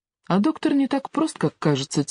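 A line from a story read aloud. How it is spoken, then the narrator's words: Quiet. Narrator (Russian): тихо сказала Ева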